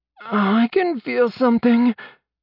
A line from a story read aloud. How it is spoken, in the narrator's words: Casey groaned